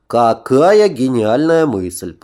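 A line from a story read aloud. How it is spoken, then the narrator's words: Grumbling. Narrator (Russian): проворчал Витька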